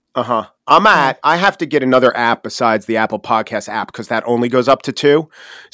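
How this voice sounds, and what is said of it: Long Island accent, fast talker. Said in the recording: “your Long Island accent... the fast way you talk”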